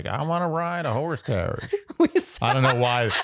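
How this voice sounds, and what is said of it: Impression of a generic American. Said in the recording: “that impression ... No, that was just a person. There's no geographical place that person was from. It's an American person.”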